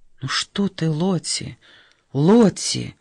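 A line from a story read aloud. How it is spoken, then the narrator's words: Soft, soothing. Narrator (Russian): мягко успокаивала ее сестра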